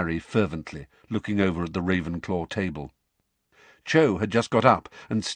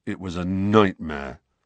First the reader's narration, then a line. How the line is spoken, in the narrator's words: said Ron in a surly voice